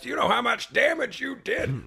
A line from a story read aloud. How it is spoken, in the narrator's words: yells